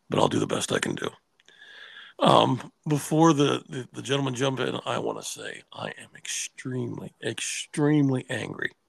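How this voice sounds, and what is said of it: Strained, partly lost voice. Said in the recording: “If I sound strange, it's because I've got a little bit of a cold, and so my voice is gone a little bit”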